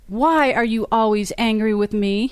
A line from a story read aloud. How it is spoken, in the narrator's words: he said